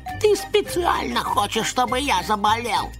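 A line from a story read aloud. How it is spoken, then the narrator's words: Nasty mocking squeak. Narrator (Russian): передразнивая бараша, гадко пропищала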